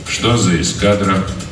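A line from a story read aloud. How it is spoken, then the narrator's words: Calm question. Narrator (Russian): спокойно поинтересовался полковник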